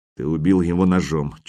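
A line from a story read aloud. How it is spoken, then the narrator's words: Barely audible. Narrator (Russian): чуть слышно произнес Хрёрик Ярл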